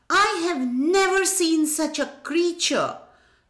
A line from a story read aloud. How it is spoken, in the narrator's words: Krishnadeva Rai exclaimed